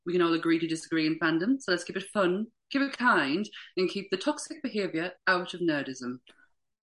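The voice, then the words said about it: Put-on polite phone voice. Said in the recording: “Did everyone like my phone voice too? That's my phone voice.”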